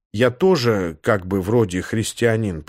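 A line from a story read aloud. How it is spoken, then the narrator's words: Muttering. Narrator (Russian): пробормотал я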